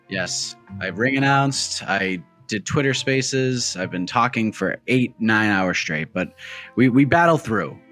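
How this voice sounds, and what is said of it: Raspy, slightly off voice. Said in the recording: “Your voice seems a little off... Why is your voice so a little raspy?”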